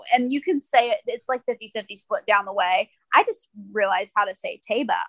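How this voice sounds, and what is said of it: Southern US accent, drawn-out vowels. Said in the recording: “I'm from down the Kentucky area, so I typically have a southern accent, so I'm gonna draw the A out longer than most people would anyway.”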